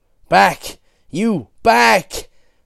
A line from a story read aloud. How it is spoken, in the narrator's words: Regis shouted